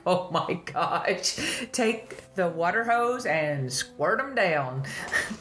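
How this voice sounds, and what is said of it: Country accent. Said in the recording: “That was my country accent coming out just then.”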